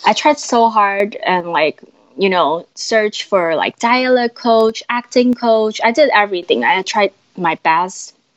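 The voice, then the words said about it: Non-native, not American English accent. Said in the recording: “My accent did got better, but I'm still not nearly like American”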